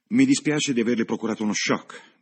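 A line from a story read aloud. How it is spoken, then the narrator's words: Curt. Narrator (Italian): disse seccamente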